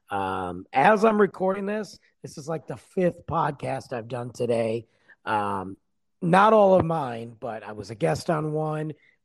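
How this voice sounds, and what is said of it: Hoarse, worn-out voice. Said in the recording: “I am losing my voice... my voice has been garbage since I woke up this morning... sound like a 95-year-old smoker”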